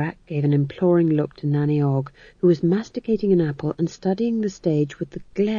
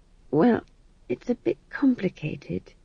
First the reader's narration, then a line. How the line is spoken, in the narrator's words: said McGrath weakly